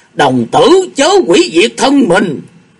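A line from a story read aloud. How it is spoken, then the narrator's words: Alarmed shout. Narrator (Vietnamese): lão đạo thét lên một tiếng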